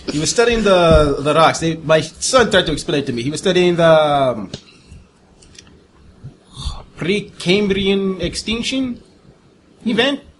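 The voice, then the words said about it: Poor put-on Russian accent. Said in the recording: “in my terrible Russian accent”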